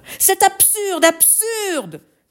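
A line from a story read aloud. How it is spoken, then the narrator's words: Yelled. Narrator (French): hurla-t-il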